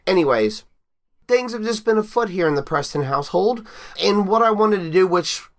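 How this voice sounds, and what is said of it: Stuffy, congested voice. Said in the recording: “if I sound weird. I sound weird in my own head. I'm a little stuffy ... little mini sinus cold things”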